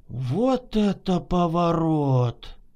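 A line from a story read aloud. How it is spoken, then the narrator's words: Astonished muttering in unison. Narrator (Russian): Одновременно и пораженно пробормотали обе подруги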